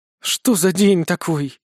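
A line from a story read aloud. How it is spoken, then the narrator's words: Calmed exhale. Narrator (Russian): выдохнула Ванесса, наконец успокоившись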